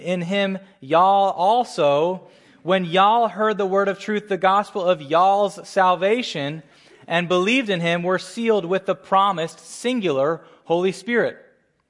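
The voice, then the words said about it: Put-on Southern American accent. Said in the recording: “if I'm going to throw my southern accent, which I don't have, I'm from the Northeast, but if I'm going to throw my southern accent onto verse 13”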